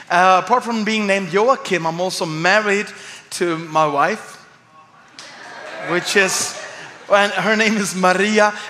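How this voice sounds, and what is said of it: Swedish accent. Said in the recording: “this guy is not from around here ... the word of God is coming to you with a Swedish accent this morning”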